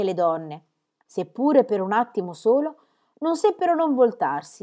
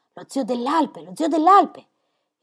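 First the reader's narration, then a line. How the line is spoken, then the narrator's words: Whispering throughout church. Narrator (Italian): per tutta la chiesa, si sussurrò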